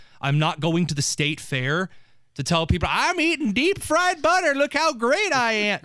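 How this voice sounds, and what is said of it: Rural northern Indiana accent. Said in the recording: “northern Henry County hick accent”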